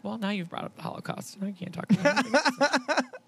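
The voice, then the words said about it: Imitates a TV character's voice. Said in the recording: “that was a Charlotte impression ... Your inflection was fantastic.”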